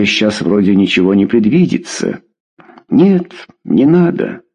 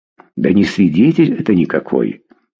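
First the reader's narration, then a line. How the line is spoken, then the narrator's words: Muttering. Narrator (Russian): пробормотал он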